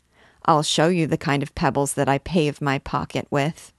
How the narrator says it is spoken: Jean answered coldly

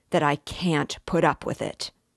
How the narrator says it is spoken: Raskolnikov cried furiously

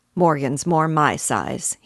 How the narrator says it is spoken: he said, grumbling fashion

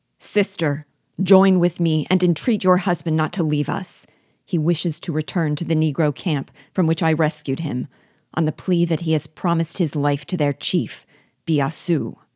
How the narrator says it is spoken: Then raising his voice

